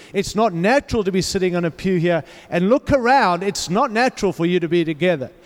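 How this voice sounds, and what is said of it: Mixed-up non-local accent. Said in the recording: “some mixed up accent”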